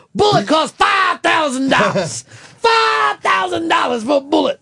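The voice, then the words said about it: Yelling loudly. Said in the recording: “he's yelling ... Yeah, he is. ... I can hear you. You have a microphone in front of you”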